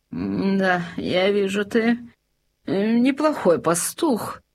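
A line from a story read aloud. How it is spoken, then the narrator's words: King's grumble. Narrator (Russian): проворчал король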